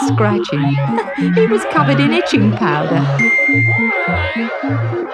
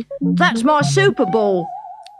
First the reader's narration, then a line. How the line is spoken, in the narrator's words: cried Ginger